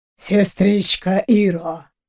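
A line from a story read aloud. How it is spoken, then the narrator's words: Low hoarse savoring male voice. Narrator (Russian): Низким хриплым голосом просмаковал мужчина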